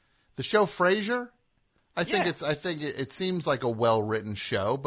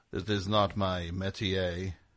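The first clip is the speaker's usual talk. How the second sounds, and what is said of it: Imitates a TV character's voice. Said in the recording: “good Frasier impression”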